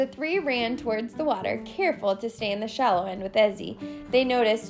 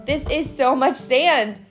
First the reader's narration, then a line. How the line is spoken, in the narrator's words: Jubilee cried